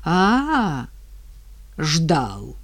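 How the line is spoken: Slightly hoarse woman's voice. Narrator (Russian): хрипловато сказала женщина

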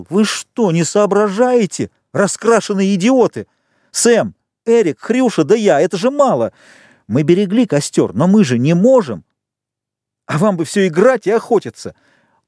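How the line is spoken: Thin unsteady shout. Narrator (Russian): Непослушным, тоненьким голосом он закричал

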